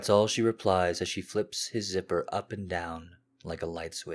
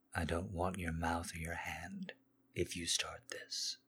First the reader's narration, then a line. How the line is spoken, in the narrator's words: he moves his lips from hers to her ear and mutters lowly